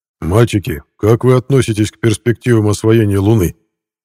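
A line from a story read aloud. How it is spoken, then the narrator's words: Loud question. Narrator (Russian): громко вопросил Шелепин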